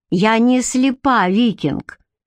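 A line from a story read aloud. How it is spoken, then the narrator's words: Snide. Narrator (Russian): ехидно заметила Бренна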